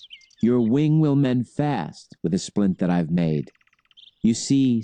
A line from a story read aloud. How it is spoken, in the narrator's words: said the boy